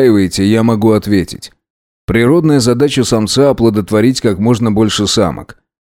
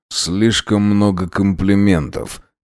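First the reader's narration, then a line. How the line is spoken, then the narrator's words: Muttering. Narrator (Russian): пробормотал Дронго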